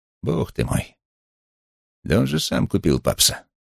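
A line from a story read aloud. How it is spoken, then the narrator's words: Blank-eyed mumble. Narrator (Russian): посмотрел на меня невидящим взглядом, пробормотал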